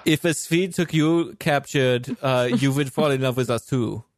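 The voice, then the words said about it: Attempted Swedish accent. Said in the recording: “I don't think that's even Swedish, that accent.”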